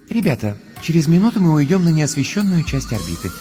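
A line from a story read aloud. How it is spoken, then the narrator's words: Gentle voice over speakers. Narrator (Russian): нежным голосом напоминает из динамиков скафандра Астрид Йенсен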